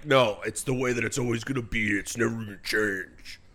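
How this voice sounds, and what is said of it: Eric Mangini impression. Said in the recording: “That was my Eric Mangini impersonation. ... That was really good.”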